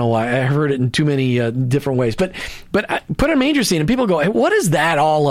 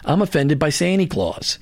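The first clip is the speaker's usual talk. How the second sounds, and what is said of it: Put-on New York accent. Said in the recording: “I have to say that with a New York accent.”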